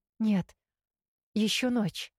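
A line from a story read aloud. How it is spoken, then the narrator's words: Frightened. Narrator (Russian): испуганно ответила я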